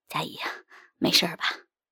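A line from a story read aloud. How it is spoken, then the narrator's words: Breathless question. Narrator (Chinese): 周宝吉……喘着气问道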